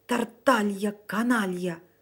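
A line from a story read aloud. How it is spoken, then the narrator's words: Old man hissing. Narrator (Russian): зашипел на него старик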